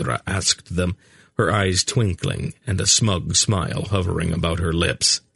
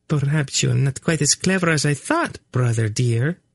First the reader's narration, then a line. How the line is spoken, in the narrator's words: she purred at him